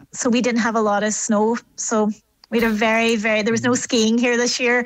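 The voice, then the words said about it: Speaks with a strong regional accent. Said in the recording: “You it never lost the accent”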